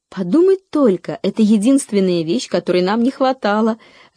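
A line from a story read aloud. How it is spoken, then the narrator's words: Joyful mother exclaiming. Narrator (Russian): радостно воскликнула мама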